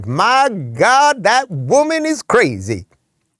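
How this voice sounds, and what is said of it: Put-on Georgia Southern accent. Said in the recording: “I'll do it in a Georgian accent.”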